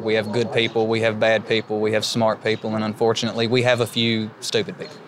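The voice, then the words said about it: Eastern Kentucky accent. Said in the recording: “as you can tell from my voice, I'm an Eastern Kentucky native myself”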